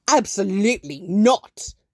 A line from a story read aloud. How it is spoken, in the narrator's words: Alfred snarls over the phone